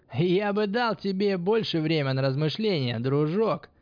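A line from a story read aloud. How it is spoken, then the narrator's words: Yelling. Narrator (Russian): орал он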